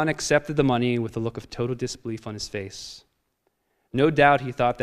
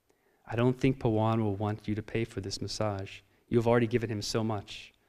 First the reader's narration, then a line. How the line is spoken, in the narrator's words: I whispered to Swamiji